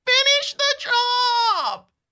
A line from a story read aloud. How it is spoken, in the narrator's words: he screams